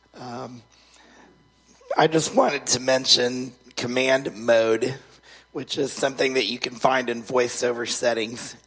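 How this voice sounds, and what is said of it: Hoarse, failing voice. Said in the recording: “I'm losing my voice today”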